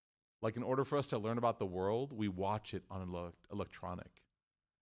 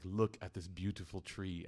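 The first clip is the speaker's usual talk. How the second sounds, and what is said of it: British accent, documentary narrator voice. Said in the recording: “British accent guy, David Attenborough”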